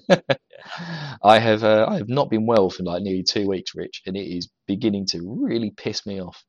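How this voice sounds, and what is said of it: Cracking, unwell voice. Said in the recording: “when I talk a bit louder, my voice is cracking ... my voice is just gonna go in and out the whole time we're talking ... if you hear any high pitch”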